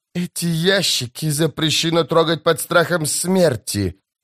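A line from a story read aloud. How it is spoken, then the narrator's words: Hissing. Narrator (Russian): прошипел казначей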